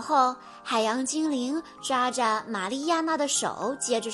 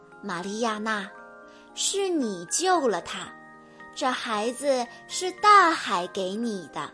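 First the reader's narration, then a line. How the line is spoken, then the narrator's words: Gentle. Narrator (Chinese): 海洋精灵温柔地说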